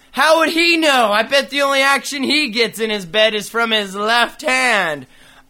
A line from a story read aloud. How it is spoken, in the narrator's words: another kid shouts